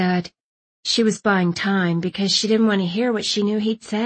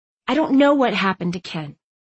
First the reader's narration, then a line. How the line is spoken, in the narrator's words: Bay said, her tone sharp